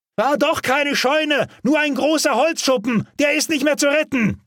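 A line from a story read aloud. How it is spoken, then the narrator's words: Bellowing over engines and flames. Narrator (German): brüllte Albert über den Motorenlärm und das Brausen der Flammen hinweg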